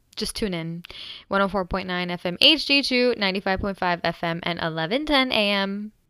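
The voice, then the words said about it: Higher-pitched, energetic radio voice. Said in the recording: “my radio voice-ish ... it literally sounds the same as my normal voice. I'm just a little bit more high-pitched and a little bit more energetic”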